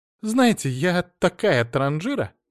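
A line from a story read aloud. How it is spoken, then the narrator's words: Giggled. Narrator (Russian): хихикнула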